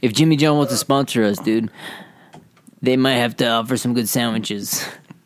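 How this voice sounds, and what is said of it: Put-on Brooklyn accent. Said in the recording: “that, like, Brooklyn accent”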